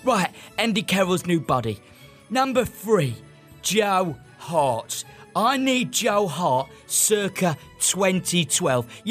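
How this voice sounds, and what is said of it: Shouting, voice going hoarse. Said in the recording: “I'm shouting here. I'm losing my voice.”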